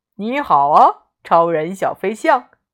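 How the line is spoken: Smiling, cheerful. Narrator (Chinese): 艾玛笑眯眯地说

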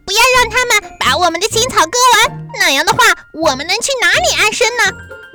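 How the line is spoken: Field mice shouting. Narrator (Chinese): 田鼠们喊着

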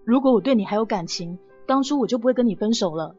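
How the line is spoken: Cold, after long pause. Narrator (Chinese): 霍千帆停顿了许久以后冷冷的说

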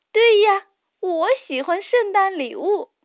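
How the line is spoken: Laughing. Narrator (Chinese): 托马斯笑着说

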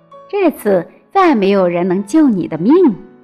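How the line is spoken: Gloating, sneering. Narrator (Chinese): 王后脸上露出了快意的狞笑，说道

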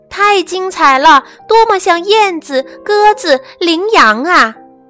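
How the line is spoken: Excited shouting. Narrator (Chinese): 评审委员们大喊

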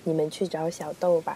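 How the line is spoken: Sighing. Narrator (Chinese): 护士叹了一口气

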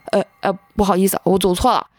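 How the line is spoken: Startled stammer. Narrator (Chinese): 吓了一跳，连忙就结结巴巴的说

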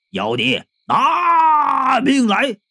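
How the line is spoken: Shout. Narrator (Chinese): 大喊一声

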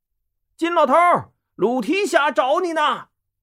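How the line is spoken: Hurried call. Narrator (Chinese): 店小二不敢怠慢，忙冲着店里喊

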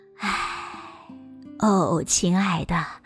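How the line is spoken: Soft sigh, grandmother. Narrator (Chinese): 奶奶轻轻的叹了口气，说

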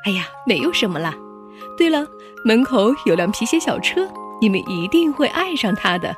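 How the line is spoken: Generous laugh. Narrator (Chinese): 老鼠爸爸大度的一笑

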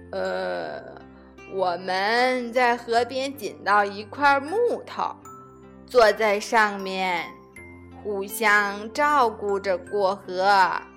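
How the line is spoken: Slow, old voice. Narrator (Chinese): 老山羊慢吞吞地说

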